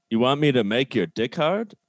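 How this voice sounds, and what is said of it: Imitation of Picard's voice. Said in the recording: “my impression of... Picard”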